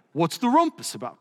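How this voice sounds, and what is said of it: Put-on English accent. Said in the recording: “That's my English accent”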